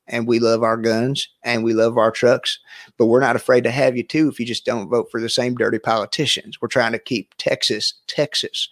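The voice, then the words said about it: Put-on Southern US accent. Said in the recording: “when you do the Southern accent, you do the little, like, it's like, instead of making a hard S sound, whenever you say S's, you do that little sh. You do it perfect.”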